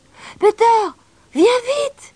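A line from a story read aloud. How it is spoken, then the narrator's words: Shouted. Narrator (French): cria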